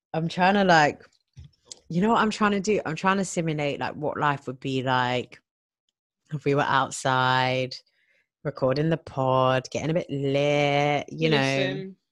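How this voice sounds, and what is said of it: Croaky voice. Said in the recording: “Why is my my voice is like on a croaky croak?”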